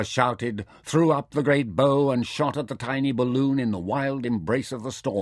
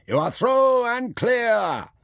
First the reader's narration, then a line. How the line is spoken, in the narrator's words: Soko with a shout